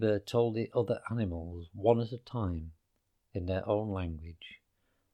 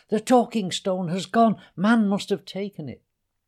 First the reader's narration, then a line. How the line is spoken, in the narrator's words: screeched at Habiba